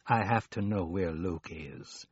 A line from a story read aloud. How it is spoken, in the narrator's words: he said coolly